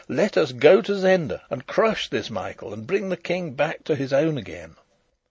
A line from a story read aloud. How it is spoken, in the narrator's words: I cried